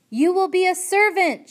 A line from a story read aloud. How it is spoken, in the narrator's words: shouted the soldier